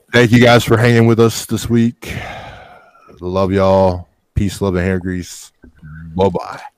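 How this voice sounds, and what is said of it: Sick, nasal, deep voice. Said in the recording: “I'm sick. I've got a little nasal shit going on ... how deep your voice is”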